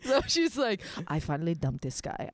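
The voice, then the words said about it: Put-on Hungarian accent. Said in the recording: “She was Hungarian and I loved her accent, so I'm gonna do it in her accent.”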